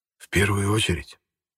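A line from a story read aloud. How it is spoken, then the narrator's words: Whisper in ear. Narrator (Russian): шепнул императору на ухо Капиран Иванов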